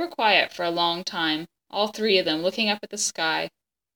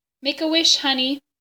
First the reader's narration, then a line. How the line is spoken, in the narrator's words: Bryce said, his voice high and tight